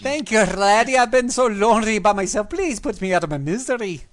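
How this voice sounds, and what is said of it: Put-on Scottish accent. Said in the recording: “all dwarves have Scottish accents”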